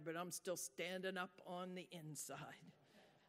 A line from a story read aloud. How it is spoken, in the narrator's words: muttered